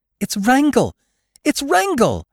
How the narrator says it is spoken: cried Jane Witherstein

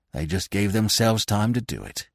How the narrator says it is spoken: muttered Falmouth

